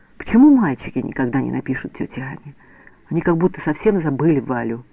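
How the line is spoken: Sad. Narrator (Russian): грустно говорит она

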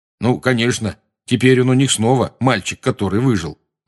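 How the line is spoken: Gloomy. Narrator (Russian): мрачно заметил Рон

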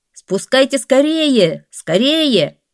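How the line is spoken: Alarmed shout. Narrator (Russian): Хасан увидел огонь и закричал

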